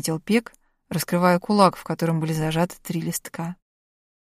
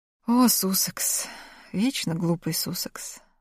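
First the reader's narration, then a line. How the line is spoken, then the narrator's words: Muttered. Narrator (Russian): пробормотал Галь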